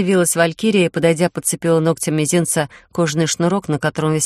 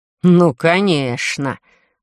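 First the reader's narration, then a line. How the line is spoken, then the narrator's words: Snapping, sarcastic through teeth. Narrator (Russian): вызверился Одинцов и … язвительно процедил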